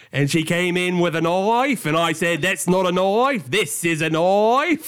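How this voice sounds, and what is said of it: Put-on Australian accent. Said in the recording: “Oh, you're really pulling that Australian into it.”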